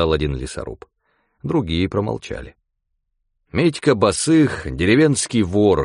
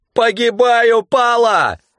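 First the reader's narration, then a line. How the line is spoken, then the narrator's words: Yelling. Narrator (Russian): орал Митька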